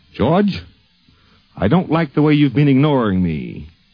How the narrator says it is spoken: Golden, in his usual affable, booming way, said

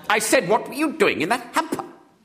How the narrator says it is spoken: snapped the lady again

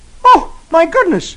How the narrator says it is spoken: He exclaims

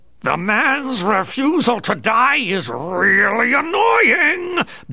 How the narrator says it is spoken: bellowed Two-Face

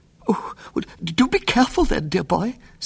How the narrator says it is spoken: said Aunt Augusta anxiously

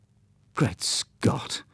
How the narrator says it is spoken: muttered Hugh

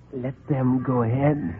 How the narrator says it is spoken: he whispered

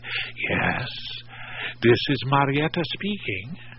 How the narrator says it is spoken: whispered reply

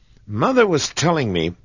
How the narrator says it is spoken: exclaimed Percy

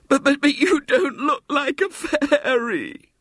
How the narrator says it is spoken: she sobbed

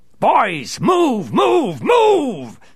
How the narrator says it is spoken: bellowed Two-Face, furious

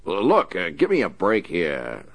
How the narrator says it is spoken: the warden bellowed

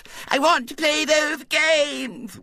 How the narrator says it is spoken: wailed Violet Elizabeth

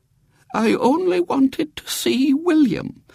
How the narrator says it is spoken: said Great Aunt Jane feebly

